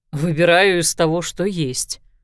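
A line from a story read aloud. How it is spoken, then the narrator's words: Amused snort. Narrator (Russian): хмыкнул Лещинский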